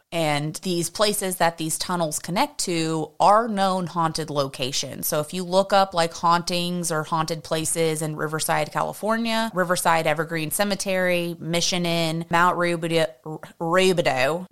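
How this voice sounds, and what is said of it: Country twang mixed with valley girl. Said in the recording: “You sound so country. ... It's like I'm developing an accent, but like a valley girl at the same time.”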